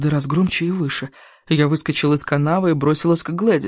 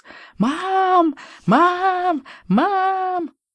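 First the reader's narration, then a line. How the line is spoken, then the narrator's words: Child wailing like siren. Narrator (Russian): Маленький мерзавец вопил, словно пожарная сирена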